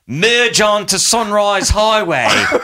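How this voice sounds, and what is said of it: Put-on Australian accent. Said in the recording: “likes to roll with guys from down under ... Australian accent”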